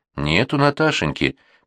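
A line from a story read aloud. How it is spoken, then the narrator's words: Sad female voice. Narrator (Russian): печально повторила женщина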